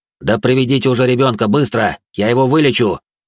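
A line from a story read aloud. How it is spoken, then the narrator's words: Barked. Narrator (Russian): рявкнул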